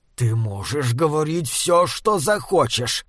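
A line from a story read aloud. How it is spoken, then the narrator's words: Growling. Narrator (Russian): прорычал первый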